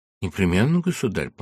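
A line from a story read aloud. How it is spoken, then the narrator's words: Quiet reply after pause. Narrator (Russian): помолчав негромко, ответил Пушкин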